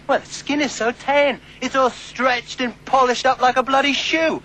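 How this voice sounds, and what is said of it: American doing an English accent. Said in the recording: “that's another American actor doing an English accent... That's very difficult.”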